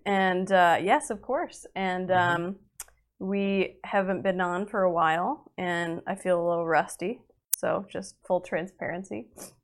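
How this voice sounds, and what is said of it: Sick, congested nasal voice. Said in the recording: “I'm still a little symptomatic here, so you can probably hear it in my voice that I'm still plaguey ... It's the season for all of the nasal things”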